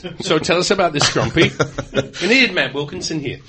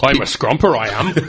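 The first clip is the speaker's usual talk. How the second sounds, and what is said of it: Put-on northern English accent. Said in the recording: “at some point you're gonna get that accent out, aren't you? You're going to reach into the back pocket and get the northern version.”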